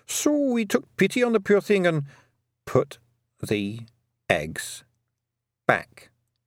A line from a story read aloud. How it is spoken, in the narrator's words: said Tiffany slowly